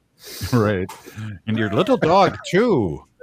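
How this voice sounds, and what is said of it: Wicked Witch character voice. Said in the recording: “That was my Wicked Witch impersonation”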